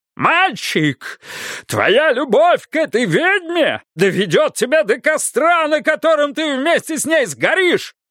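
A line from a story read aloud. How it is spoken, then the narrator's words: Furious roar. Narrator (Russian): Заорал Бидвилл, побагровев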